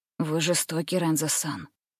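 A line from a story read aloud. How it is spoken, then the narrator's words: Whisper. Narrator (Russian): Ама прошептал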